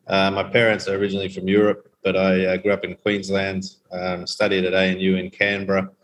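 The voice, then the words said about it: Australian accent. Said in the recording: “as you can tell from my accent, I was educated in Australia”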